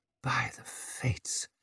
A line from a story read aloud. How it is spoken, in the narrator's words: she muttered